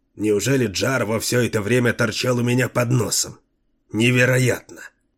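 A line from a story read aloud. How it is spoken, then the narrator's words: Mumbling. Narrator (Russian): пробормотал Артед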